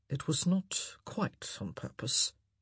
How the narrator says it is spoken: he murmured

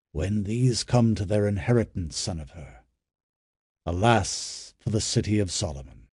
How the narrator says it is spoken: Simonides said gravely

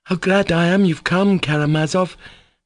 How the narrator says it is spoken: he cried

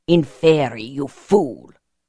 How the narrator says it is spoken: he snarled

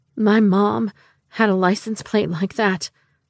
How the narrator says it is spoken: I said, my voice shaky and weak

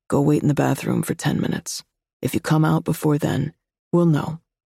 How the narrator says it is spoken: said calmly

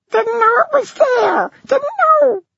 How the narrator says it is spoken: squeaked the pisky, twisting under Julian's hold

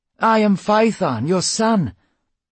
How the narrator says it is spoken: he cried

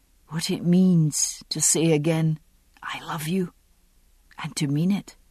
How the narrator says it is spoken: his voice said, whispering

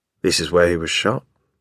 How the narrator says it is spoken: John says in a low voice

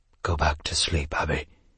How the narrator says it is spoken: he said softly

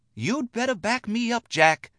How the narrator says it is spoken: Lucy whispered hotly

